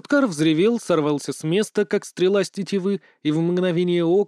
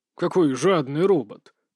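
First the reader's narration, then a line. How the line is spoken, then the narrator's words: Muttered. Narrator (Russian): пробормотал его величество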